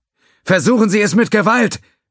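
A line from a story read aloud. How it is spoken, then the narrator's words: Shouting back. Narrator (German): schrie Zhao zurück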